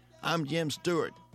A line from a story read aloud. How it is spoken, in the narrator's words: the man said